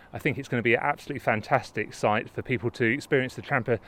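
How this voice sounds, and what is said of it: Slightly out of breath. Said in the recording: “As you can hear, I'm slightly out of breath going up the slope”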